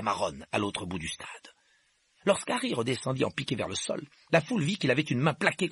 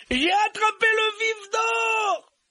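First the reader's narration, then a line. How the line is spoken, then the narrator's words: Yelled. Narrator (French): hurla-t-il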